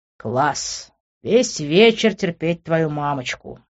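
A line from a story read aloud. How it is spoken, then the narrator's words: Displeased grumble. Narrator (Russian): недовольно буркнул я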